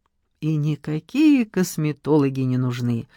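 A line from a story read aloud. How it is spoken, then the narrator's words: Dreamy drawl. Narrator (Russian): мечтательно протянула Надежда Николаевна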